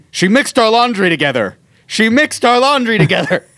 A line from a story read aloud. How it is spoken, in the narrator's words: Steven just looks at me and shouts